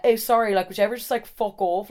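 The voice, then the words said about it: Attempted English accent sounding South Dublin. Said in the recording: “these accents are gonna be hard ... that's fully South Dublin, what is an English accent?”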